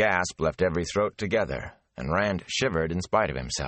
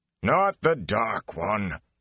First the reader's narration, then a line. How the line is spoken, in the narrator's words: Aral Luhan growled